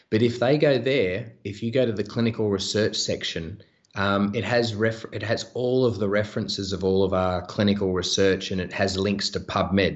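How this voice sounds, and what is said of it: Speaks with a noticeable accent. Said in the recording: “decipher my accent”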